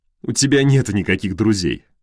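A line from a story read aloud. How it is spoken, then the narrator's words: Light laugh. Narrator (Russian): легко рассмеялся он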